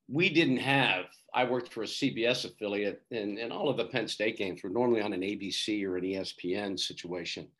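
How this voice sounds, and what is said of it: Voice with a cold, throat-clearing. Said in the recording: “I have a bit of a cold. I have to clear my throat a couple of times”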